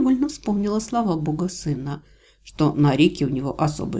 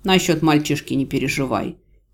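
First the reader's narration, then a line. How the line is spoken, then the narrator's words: Sarcastic snort. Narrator (Russian): незнакомец хмыкнул с сарказмом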